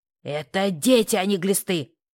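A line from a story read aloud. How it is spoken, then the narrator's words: Barking snap. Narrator (Russian): рявкнула Мотя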